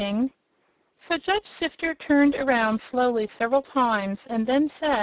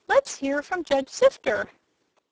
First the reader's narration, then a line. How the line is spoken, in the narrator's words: a big kitchen fork pricked up its ears and said in a tiny voice